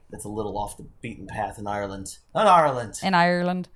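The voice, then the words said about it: Poor put-on Irish accent. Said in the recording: “That's the worst accent I've ever done.”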